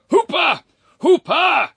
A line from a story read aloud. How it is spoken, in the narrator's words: cried Lord Barrymore once more, for he was still struggling in the ever-closer embrace of the amorous Amelia